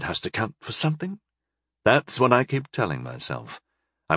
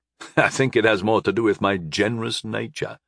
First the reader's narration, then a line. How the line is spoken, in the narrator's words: I chuckled